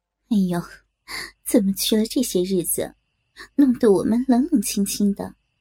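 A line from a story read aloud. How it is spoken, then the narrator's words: Women laughing together. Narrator (Chinese): 夫人忙同长姑接着笑道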